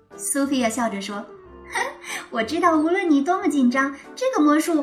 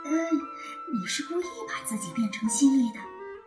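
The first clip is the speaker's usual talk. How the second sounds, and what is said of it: Whispered line. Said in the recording (Chinese): “小声”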